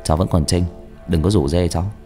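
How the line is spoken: Amused, laughing tone. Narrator (Vietnamese): Tôi cười cười

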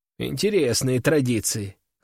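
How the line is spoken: Snort. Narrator (Russian): хмыкнул я

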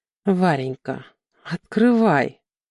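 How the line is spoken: Gentle request. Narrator (Russian): ласково попросил Антон

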